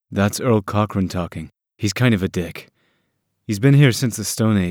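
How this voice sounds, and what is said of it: Usual voice. Nothing is said of it.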